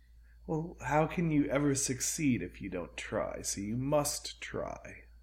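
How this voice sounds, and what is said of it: D&D villain character voice. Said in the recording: “Why are you talking in this voice? ... Why are you doing a D&D villain voice?”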